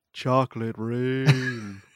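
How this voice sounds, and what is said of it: Deep, sick-sounding baritone voice. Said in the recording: “my new deep voice from having been just disgustingly sick ... You're like a baritone now. You were like a high C.”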